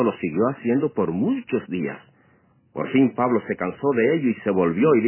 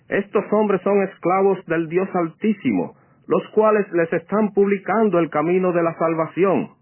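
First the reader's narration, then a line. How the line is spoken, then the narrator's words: Shouting. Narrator (Spanish): gritaba con estas palabras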